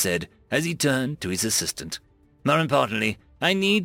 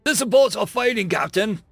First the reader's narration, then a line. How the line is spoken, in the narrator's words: the assistant cried through labored breaths and the storm trying its hardest to drown him out